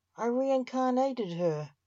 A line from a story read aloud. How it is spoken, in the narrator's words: said Argent